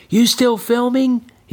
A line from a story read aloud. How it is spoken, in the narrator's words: he calls to Benny, his voice trembling from the rough, rocky hill